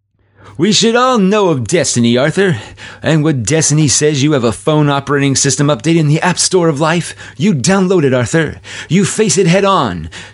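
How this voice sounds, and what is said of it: Cartoon superhero character voice. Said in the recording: “This is in my best tick voice, which kind of sounds like my Captain Kake from Universe Journey, but it's not as sleazy”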